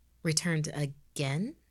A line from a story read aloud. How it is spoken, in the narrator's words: Christine asked